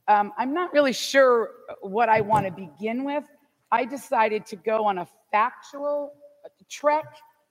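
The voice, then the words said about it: Loud, projecting teacher voice. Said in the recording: “I'll use my teacher voice because this is kind of echoey and some of the people having trouble hearing”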